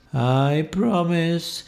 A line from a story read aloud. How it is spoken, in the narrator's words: he said in a sadder, sad voice